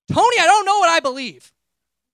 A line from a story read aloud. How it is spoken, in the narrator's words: I got so mad, and I yelled